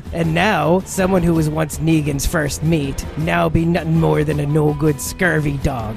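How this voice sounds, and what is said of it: Put-on pirate speak. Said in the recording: “me pirate speak be burdensome on ye by now ... this accent”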